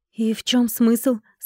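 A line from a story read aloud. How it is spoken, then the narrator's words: Plain. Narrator (Russian): спросил я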